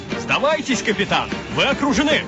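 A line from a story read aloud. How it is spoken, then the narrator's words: Shouted. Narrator (Russian): крикнул всадник в бурке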